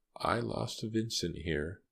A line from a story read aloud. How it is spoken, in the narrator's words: she said softly